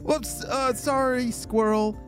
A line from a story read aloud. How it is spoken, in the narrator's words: laughed Stella